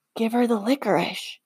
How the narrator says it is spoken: Danny whispers from behind me

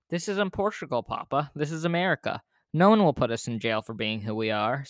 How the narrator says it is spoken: said Emmanuel

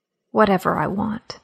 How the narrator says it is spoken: whispered

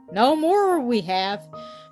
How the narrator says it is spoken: said Bobby

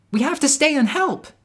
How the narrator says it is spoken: Snowdrop shouted

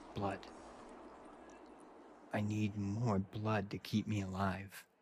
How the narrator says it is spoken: The boy muttered under his breath

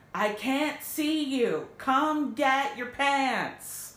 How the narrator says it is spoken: Dean yelled from underneath the pillow

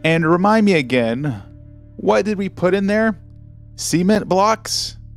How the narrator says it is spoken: Bailey giggled

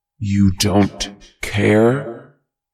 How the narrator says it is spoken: The thing roared

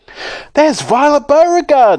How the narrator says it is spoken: someone shouting

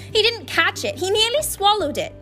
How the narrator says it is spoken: Flint said, howling

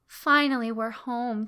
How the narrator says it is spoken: Kara said with a sigh of relief

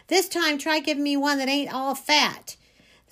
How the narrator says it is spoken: hollering

